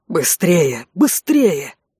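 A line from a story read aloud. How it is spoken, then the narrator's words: Hoarse wheezing. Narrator (Russian): хрипел Конт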